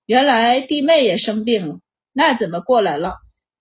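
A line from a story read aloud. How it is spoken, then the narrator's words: Flat, cool. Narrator (Chinese): 王组长淡淡的道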